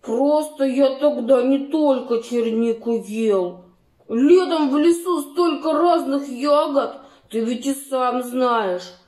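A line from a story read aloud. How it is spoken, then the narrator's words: Grumbling mutter. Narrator (Russian): Пробурчал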